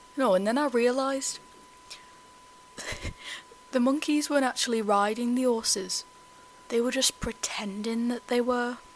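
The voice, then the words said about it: Put-on Scouse accent. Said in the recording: “the Trevor impression ... I worked so hard on my Scouse accent ... The hard work is shining through.”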